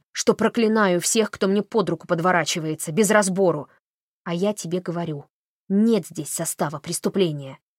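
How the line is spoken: Sudden growl. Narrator (Russian): вдруг прорычала

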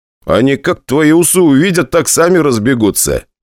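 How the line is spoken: Smiling. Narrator (Russian): улыбнулся я

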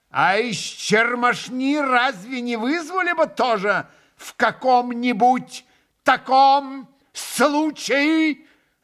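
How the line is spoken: Sudden terrible loud yell. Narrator (Russian): Завопил вдруг Иван Федорович, неизвестно для чего, вдруг ужасно, возвысив голос

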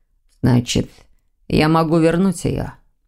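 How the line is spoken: Demon's hoarse question. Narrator (Russian): Охрипшим голосом спросил демон

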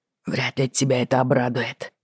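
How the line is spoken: Hoarse. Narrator (Russian): хрипло сказал он

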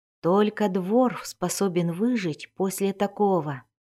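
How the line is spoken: Awed whisper, woman. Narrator (Russian): восхищенно прошептала женщина, словно не веря

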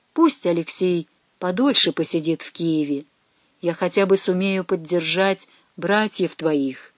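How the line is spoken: Quiet careful voice. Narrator (Russian): Тихо, чтобы не спугнуть, произнес

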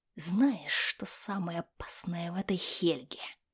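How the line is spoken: Whisper. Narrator (Russian): прошептал Магнус

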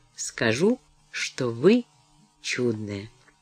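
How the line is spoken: Meaningful tone. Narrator (Russian): Деннис ответил многозначительным тоном

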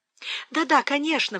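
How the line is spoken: Exclaiming. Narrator (Russian): воскликнула Фанни

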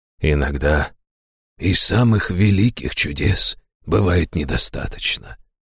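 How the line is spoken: Soft, gentle. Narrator (Russian): мягко проговорил

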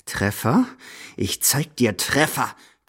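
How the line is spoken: Grim hiss. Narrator (German): zischt grimmig

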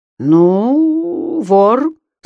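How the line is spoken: Weak, wooden voice. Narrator (Russian): Слабым деревянным голосом повторил Петр Горбидоныч

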